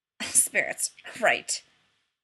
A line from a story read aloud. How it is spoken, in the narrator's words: Rodney snorted